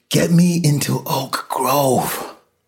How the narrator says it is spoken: Loyce gasped

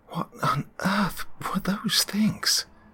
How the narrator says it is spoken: I finally managed to get out, my voice cracking and my throat desert dry

